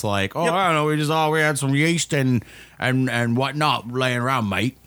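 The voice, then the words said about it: Put-on English or Australian accent. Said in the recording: “that was English or was that Australian?”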